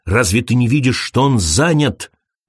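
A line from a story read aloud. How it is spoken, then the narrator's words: Snapped. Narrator (Russian): огрызнулся он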